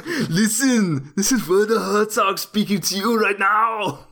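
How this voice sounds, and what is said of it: Werner Herzog impression, Schwarzenegger-like accent. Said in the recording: “yours is doing Schwarzenegger too... listen, I'm Werner Herzog”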